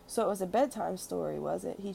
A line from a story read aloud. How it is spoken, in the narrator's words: He chuckled